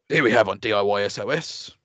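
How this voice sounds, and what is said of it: Imitates another person's voice. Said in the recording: “Best impression of Nick Knowles. ... Why are you putting on a voice?”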